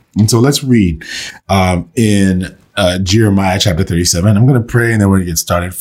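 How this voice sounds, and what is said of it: Strained, fading voice. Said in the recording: “I'm losing my voice. I'm a little under the weather”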